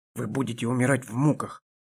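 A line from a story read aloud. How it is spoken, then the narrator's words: Menacing hiss. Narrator (Russian): снова зашипела темная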